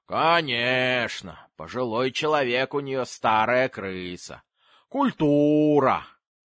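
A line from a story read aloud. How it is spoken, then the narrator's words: Drawling singsong old woman. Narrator (Russian): Бабушка протянула нараспев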